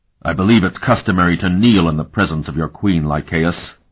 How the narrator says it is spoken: Ulith growled

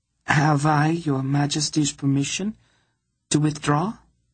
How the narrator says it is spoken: she asked sweetly

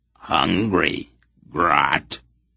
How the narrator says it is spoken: it growled

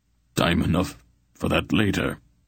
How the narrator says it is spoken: Brand told him gruffly

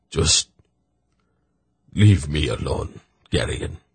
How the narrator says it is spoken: Zakath muttered

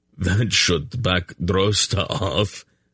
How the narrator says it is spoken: Anheg chuckled grossly

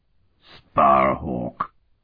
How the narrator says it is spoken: Otha spat out a foul oath

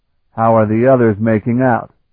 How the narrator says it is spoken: Sparhawk asked her

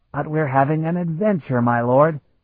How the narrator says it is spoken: Khalad said brightly

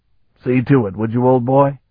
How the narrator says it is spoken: Stragan asked

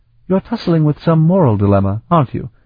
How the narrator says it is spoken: Olaf sighed

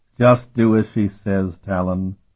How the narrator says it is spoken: Keurig told him wearily

